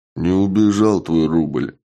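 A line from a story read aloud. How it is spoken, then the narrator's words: Gloomy reply. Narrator (Russian): мрачно ответил Чак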